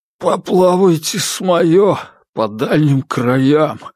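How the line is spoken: Hoarse. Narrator (Russian): хрипло ответил Комаровский

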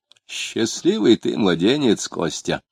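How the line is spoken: Muttering. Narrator (Russian): пробормотал Лютов

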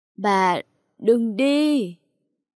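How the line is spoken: Old man, broken crying out. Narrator (Vietnamese): Ông Tư gào được mấy tiếng đứt đoạn

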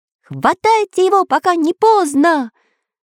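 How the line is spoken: Shouted. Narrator (Russian): Выкрикнул Самоделкин

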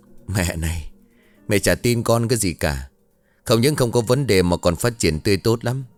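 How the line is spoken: Loud laughter. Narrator (Vietnamese): Hai người cổ cười lớn

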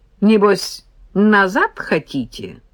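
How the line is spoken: Snorting sarcastic question. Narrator (Russian): он хмыкнул и ехидно спросил

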